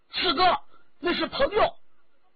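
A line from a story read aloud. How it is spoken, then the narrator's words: Urgent cry. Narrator (Chinese): 于同急叫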